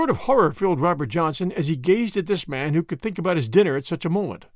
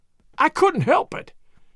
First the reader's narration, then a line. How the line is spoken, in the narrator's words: gasped